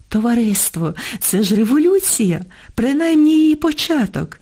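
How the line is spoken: Joyful. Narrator (Ukrainian): радісно говорив він

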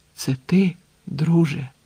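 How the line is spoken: Strained whisper. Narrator (Ukrainian): з зусиллям прошепотів він

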